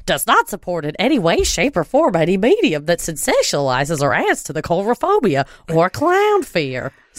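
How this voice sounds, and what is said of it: Imitated voice of clown organization president. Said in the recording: “I just do them... I'm Glenn Colbert... he's not even doing an accent for his clown character. That's just how he talks.”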